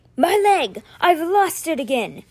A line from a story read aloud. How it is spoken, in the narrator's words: His shout ended with the hiccup of a sob